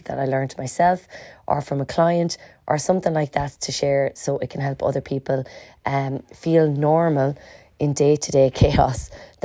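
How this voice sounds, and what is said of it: Hoarse, worn-out voice. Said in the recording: “my voice is a little bit gone out at the moment because I'm absolutely tearing the absolute bum of it”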